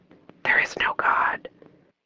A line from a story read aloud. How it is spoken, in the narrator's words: it suddenly got just one decibel louder, and it whispered